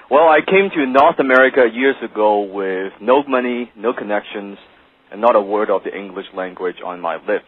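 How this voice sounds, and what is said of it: Non-native English accent. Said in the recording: “as you can tell from my accent, English is not my first language... some of my friends, they still say I speak like Jackie Chan”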